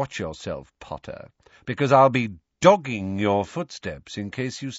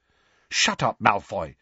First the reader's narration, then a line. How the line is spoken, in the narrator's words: said Hermione sharply